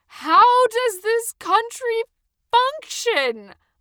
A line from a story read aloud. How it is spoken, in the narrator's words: I yelled up at the sky, panting